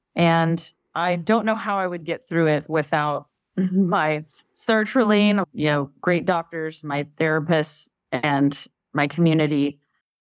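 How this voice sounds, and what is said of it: Texas accent. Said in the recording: “love to hear sertraline in a Texas accent. It's never sounded so good.”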